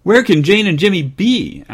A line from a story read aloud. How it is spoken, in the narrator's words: asked Mother in an anxious voice